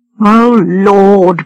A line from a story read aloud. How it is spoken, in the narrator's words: groaned George